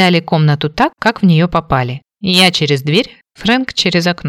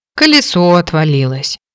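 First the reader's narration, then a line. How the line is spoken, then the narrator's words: Heavy-sighing reply. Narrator (Russian): тяжело вздохнув, ответила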